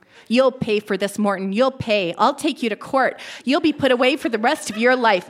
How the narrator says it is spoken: Mother screamed

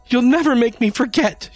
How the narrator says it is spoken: she screeched

